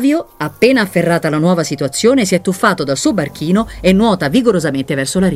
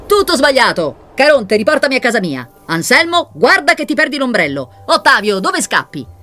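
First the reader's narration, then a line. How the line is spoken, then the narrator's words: Shouting. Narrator (Italian): grida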